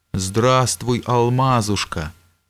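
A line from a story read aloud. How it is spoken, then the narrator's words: Affectionate greeting. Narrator (Russian): ласково приветствовал император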